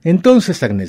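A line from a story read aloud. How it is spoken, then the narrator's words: Shouted. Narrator (Spanish): gritó Pierre Antón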